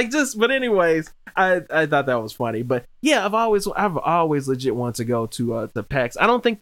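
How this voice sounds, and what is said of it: Usual voice. Nothing is said of it.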